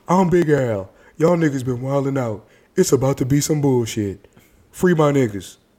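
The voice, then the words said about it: Impression of Big Al voice. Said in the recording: “turn into Big Al from that Dave Chappelle skit ... I do that voice really well”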